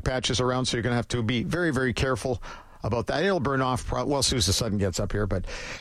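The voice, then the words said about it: Slightly hoarse, raspy voice. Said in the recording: “I sounding a little like a little hoarse today? ... A little raspy.”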